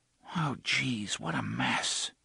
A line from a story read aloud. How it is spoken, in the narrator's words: Jake whispered